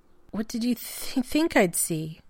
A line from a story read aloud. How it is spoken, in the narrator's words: Shepard sighed